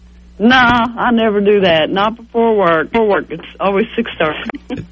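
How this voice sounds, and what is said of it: Kentucky accent. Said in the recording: “I'm from Kentucky. That's the reason I have this accent. I've been in Virginia for 2 years, but I can't knock this accent.”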